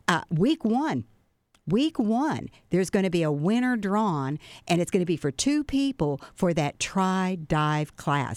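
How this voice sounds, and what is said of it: Excited voice. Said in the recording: “I'm so excited about this, you can probably tell in my voice”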